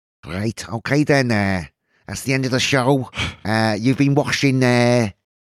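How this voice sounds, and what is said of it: Attempted Liverpool accent. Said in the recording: “Can you do it in a Liverpool accent? ... Not very well.”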